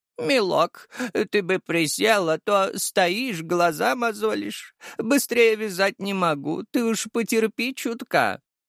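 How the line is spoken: Elderly woman's voice. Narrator (Russian): старческим голосом произнесла бухгалтер

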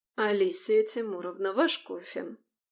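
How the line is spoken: Quiet, over intercom. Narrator (Russian): негромко произнесла Вероника Павловна по внутренней связи

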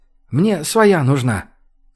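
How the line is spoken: Quiet. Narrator (Russian): тихо произнес Родионов

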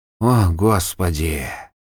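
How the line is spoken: Overwhelmed mutter. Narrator (Russian): только и смог пробормотать Жуга

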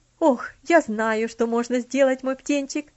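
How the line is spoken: Sudden exclamation. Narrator (Russian): внезапно воскликнула тетушка Хлоя

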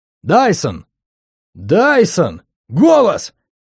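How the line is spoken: Mocking shout from afar. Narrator (Russian): глумливо закричал кто-то с берега

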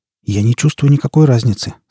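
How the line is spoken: Plain. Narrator (Russian): сказал он

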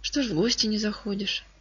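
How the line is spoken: Plain. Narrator (Russian): спросила она

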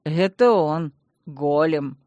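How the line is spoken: Mocking. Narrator (Russian): насмешливо сообщил маркиз

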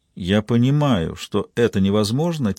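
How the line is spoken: Quiet. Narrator (Russian): тихо проговорила Маура

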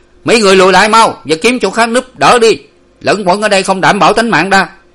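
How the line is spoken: Shouting louder. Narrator (Vietnamese): Người ở ven rừng càng quát to thêm

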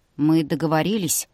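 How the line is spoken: Gloomy, annoyed. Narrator (Russian): мрачно сказал он, с досадой

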